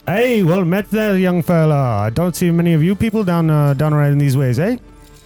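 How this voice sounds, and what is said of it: Put-on character dialect. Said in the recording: “that's an interesting dialect”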